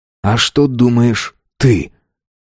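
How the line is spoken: Slow speech. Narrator (Russian): Артемида медленно произнесла

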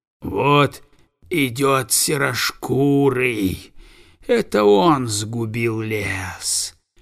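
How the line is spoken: Hissing. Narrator (Russian): прошипел, как и все другие обитатели леса, Крюлли

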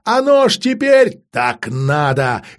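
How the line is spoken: Barked retort. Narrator (Russian): рявкнула в ответ Алисанда

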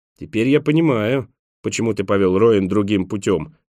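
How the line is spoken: Grumbled. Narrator (Russian): проворчал Николас

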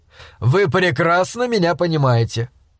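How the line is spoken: Snorting. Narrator (Russian): Пакер хмыкнул

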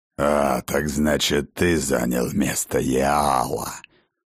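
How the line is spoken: Growl. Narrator (Russian): прорычал владыка Асгарда

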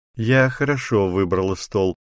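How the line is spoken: Laughing. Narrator (Russian): засмеялась Дзинтара

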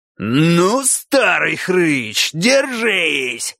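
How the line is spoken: Roaring. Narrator (Russian): взревел кабан

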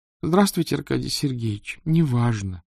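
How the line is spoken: Sad girl answering. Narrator (Russian): печально ответила девочка

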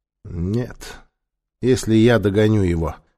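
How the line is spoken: Gloomy. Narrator (Russian): сказал мрачно Нефер

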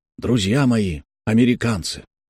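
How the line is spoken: Firm, slightly hoarse, restrained. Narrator (Russian): начал симулякр своим знакомым, твердым, чуть хрипловатым, но сдержанным голосом

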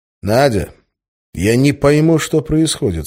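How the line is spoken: Plain. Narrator (Russian): сказал я

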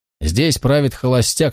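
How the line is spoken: Said with a snort. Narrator (Russian): сказал мистер Траппер и хмыкнул

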